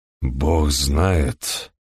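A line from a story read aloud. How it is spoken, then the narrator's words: Muffled hollow voice. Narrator (Russian): глухим голосом повторил Хедли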